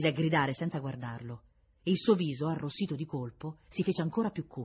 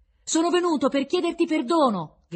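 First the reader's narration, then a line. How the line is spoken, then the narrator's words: Loud flat rote delivery. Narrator (Italian): gridò con voce forte, senza intonazione, come una lezione imparata a memoria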